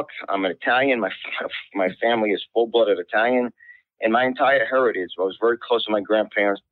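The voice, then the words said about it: New York accent. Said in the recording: “My accent from New York.”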